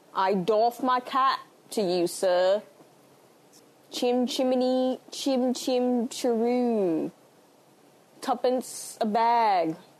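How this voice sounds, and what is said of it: Terrible Dick Van Dyke-style accent. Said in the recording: “It's actually worse than Nick Van Dyke's accent, and I didn't know that was possible.”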